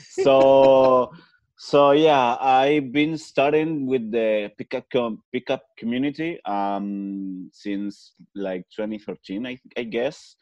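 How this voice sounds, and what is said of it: Spanish accent in English. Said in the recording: “My first language is Spanish, so pardon if I have an accent”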